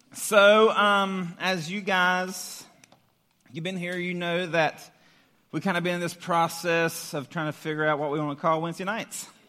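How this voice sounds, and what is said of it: Hoarse, worn-out voice. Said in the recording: “My voice is already gone. It's not good.”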